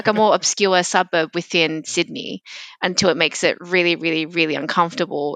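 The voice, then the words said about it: Strong Australian accent. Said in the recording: “I have a very, very Australian accent”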